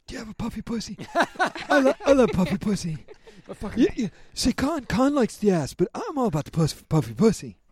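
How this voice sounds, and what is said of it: Imitates another person's voice. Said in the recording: “that was the greatest impersonation I've ever heard.”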